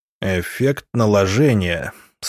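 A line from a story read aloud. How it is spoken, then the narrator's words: Thoughtful drawl. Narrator (Russian): столь же задумчиво протянул учитель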